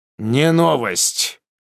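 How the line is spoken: Barked shout. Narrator (Russian): гаркнул Иван

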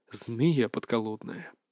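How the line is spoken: Grumbling. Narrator (Russian): проворчал Юсупов

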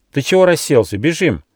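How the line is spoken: Shouted. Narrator (Russian): крикнул Рыж

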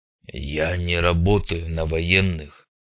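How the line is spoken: Mumbled grumble. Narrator (Russian): пробурчал Бородатый

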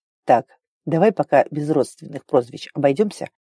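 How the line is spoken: Dazed mutter. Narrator (Russian): пробормотал Киттон ошалело

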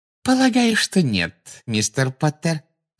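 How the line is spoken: Sugary voice. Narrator (Russian): сладким голосом проговорила Амбридж

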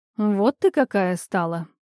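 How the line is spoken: Drawling through pursed lips. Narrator (Russian): вытянув губы трубочкой, протянула богиня

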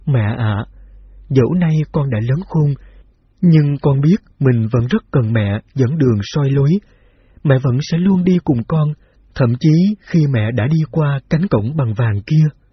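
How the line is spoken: Smiling through tears. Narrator (Vietnamese): miệng mỉm cười mà mắt rưng rưng

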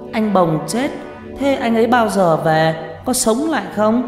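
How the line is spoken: Crying child. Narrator (Vietnamese): Nó cứ đứng mếu máo khóc

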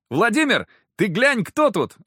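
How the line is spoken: Exclamation. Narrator (Russian): воскликнул он

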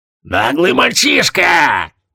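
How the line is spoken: Thundering huge old woman. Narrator (Russian): прогремела огромная старуха

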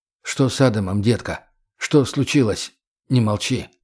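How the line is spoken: Forced calm question. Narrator (Russian): как мог более спокойно спросил

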